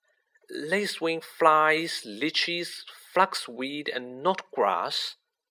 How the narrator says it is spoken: she murmured

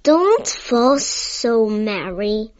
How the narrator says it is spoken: grumbled Mr

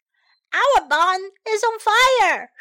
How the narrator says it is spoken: shouted Penny

